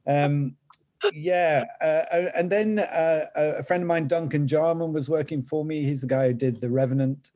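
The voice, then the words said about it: Northern English accent. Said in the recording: “my Northern English accent”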